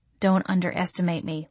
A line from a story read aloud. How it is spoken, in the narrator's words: muttered